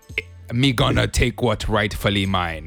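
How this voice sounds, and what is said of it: Terrible put-on Jamaican accent. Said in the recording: “a terrible ... Jamaican accent”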